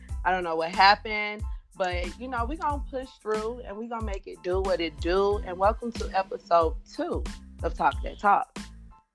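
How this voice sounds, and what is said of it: Sick, under-the-weather voice. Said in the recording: “apologize for my voice. I am under the weather this week.”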